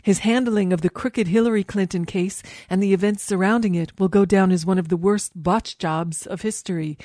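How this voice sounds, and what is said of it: Poor imitation of another person's voice. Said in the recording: “with a terrible impression of the president”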